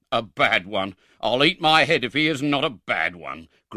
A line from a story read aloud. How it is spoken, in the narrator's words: growled Mr